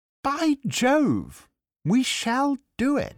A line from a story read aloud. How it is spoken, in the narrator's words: Fritz … he drew a long breath and exclaimed